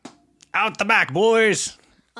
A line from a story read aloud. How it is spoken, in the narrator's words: he yells